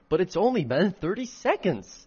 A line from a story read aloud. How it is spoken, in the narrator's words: exclaimed